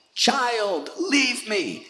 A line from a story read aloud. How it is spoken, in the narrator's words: she was screaming